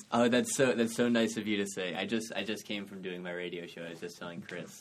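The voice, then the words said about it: Smooth, polished radio voice. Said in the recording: “your freaking voice is so good ... Such a good, like, radio voice.”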